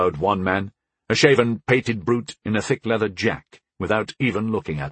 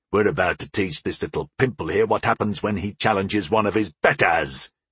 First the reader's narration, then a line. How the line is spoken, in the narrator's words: he snarled